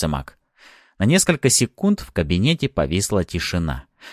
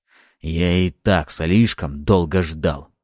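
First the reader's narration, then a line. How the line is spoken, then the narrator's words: Hoarse reply. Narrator (Russian): хрипло ответил Ариста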